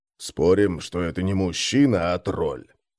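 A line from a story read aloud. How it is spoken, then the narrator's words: Quiet reply. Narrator (Russian): так же тихо отозвался Крум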